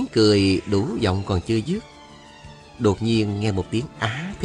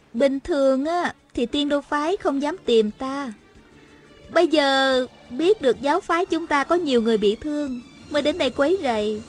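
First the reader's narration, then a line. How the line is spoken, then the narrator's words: Smiling. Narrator (Vietnamese): Hà Thiết Thụ mỉm cười nói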